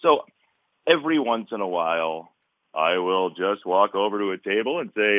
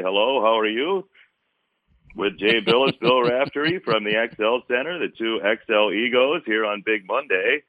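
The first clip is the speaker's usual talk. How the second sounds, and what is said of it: Imitates another person's voice. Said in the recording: “I did the impersonation ... That is very, very good. And in particular, it's really good because there are probably not a lot of people who do Sean McDonough.”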